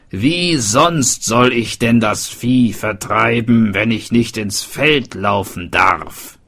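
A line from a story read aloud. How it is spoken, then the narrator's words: Called out. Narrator (German): rief er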